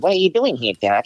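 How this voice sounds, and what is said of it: Smarmy Bronx-accented cartoon rabbit voice. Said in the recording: “Bugs Bunny not having a Bronx accent ... You have to have that schmarminess, that accent.”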